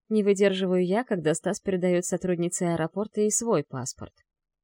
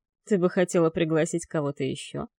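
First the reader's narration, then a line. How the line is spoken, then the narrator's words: Mocking tone. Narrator (Russian): Насмешливым тоном произносит Крестовский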